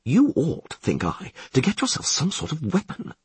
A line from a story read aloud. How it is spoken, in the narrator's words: Dandelion finally muttered